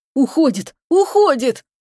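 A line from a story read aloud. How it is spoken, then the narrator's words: Groan. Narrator (Russian): простонал Чебуран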